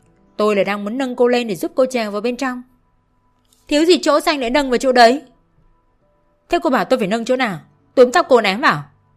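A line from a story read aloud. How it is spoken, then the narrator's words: Angry. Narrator (Vietnamese): Long giận dữ nói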